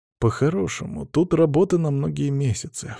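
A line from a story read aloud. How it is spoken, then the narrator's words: Sighing. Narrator (Russian): вздохнул я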